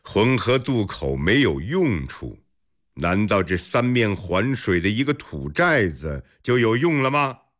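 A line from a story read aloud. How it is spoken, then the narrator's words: With a laugh. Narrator (Chinese): 尉迟敬德一笑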